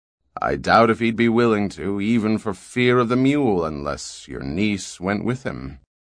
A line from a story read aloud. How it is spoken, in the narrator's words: Mies responded dryly